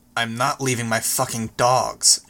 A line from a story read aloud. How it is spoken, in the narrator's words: she said, her voice hard